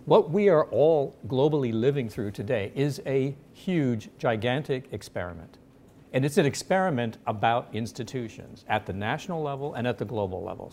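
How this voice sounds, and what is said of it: American accent. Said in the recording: “as you can probably tell from my accent ... I have an American passport”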